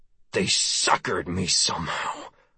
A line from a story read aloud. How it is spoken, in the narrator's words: I breathed